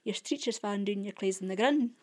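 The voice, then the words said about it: Very strong central Scots accent. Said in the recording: “very, very strong accent, very strong central Scots accent.”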